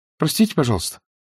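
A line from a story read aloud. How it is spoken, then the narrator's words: Frightened. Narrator (Russian): испуганно говорил Сергей Сергеевич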